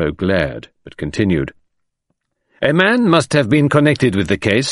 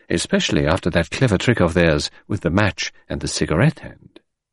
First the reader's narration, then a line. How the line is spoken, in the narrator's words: murmured Poirot